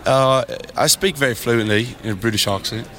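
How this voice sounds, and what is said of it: Put-on British accent. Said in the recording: “Can you do an English accent? ... That's not bad. ... That's pretty good.”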